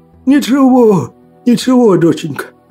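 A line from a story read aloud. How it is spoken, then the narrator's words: Father laughing happily. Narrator (Russian): счастливо смеялся отец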